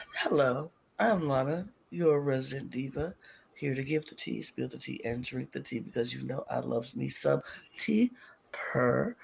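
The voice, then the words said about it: Raspy sexy whisper. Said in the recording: “I am talking in my whisper, my raspy, sexy voice”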